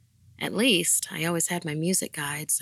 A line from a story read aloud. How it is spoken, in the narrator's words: I sighed to myself